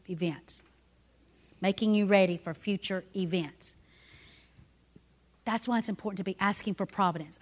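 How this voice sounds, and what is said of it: Southern drawl accent. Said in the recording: “it's Southern drawl.”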